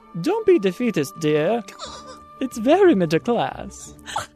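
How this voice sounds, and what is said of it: Put-on British accent imitation. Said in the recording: “because my accent is so bad, I'm going to put it on one last time to pay homage to the Dowager Countess Maggie Smith ... So your accent is amazing.”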